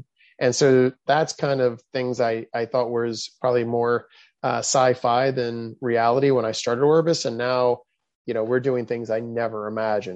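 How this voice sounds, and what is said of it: Enthusiastic, excited voice. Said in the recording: “you can hear the enthusiasm and excitement in my voice”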